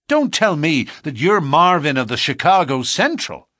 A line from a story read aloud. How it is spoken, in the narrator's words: he cried